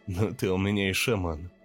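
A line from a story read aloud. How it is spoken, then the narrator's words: Laughing. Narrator (Russian): засмеялся я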